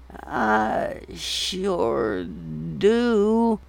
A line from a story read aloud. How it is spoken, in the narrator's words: the woman groaned